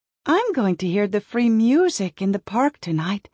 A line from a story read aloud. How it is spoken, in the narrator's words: she laughed to herself, with the pleasure before her